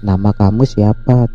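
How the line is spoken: Plain. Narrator (Indonesian): tanya Aki

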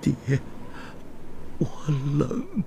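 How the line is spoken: Quiet, small voice. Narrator (Chinese): 小声地说

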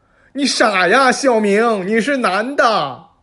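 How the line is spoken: Shouting. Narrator (Chinese): 姐夫大叫道

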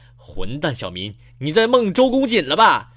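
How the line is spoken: Teacher's furious roar. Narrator (Chinese): 老师一气之怒，一气之下怒吼道

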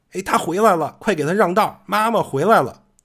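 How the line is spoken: Sudden shout. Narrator (Chinese): 突然又有人喊

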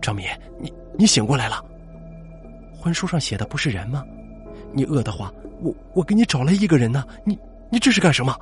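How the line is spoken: Trembling voice. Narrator (Chinese): 程家声音颤抖的说

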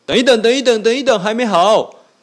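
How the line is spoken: Loud. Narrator (Chinese): 老鼠医生就很大声的说

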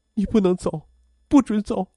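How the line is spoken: Crying. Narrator (Chinese): 母亲哭着对病床上的父亲说

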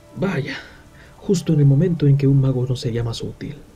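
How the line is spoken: Sighing pair. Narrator (Spanish): suspiraron Dori y Nori

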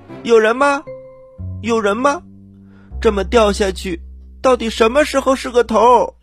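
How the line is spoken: Loud shouting. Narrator (Chinese): 她大声的喊着

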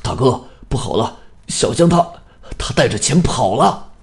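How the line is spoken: Breathless, out of breath. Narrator (Chinese): 刚子喘了几口粗气，说

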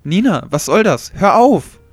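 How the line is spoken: Indignant shout. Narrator (German): rief Susi entrüstet

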